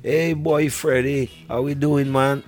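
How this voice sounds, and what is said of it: Imitated Trinidadian accent. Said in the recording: “our accent, is different from if you go to Trinidad right now. You go to Trinidad ... the accents are different”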